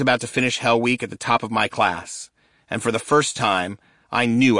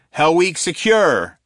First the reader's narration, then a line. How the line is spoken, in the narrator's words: he shouted